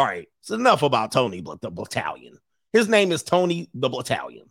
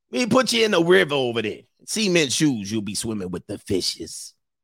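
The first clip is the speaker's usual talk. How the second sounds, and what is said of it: Put-on Italian-American mobster accent. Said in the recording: “out here with the bro, bro Prano accent.”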